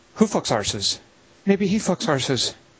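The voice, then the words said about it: Put-on accent quoting a movie line. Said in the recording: “I'll try to do it in the accent.”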